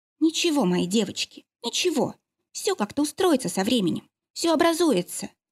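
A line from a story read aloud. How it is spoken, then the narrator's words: Tearful quiet whisper. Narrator (Russian): прошептала она тихо, глотая слезы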